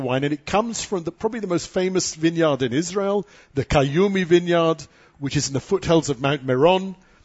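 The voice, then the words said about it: Classy, proper-sounding accent. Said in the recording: “it sounds very classy when you say it with your accent ... He sounded so proper.”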